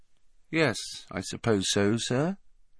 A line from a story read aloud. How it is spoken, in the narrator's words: he said finally, in an expressionless voice